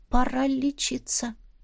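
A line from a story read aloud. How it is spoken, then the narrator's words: Sad. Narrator (Russian): печально сообщила я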